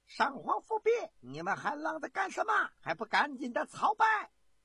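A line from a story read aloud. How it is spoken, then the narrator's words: Loud shout. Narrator (Chinese): 徐有贞已经大声的喝道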